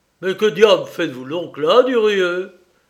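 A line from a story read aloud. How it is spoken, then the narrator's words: Exclaimed. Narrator (French): s'exclama Desmarets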